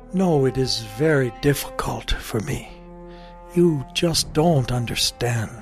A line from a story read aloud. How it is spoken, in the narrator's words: The king sadly shook his head and said